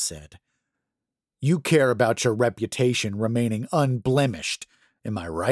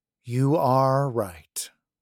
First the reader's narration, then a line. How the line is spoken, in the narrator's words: Paulson sighed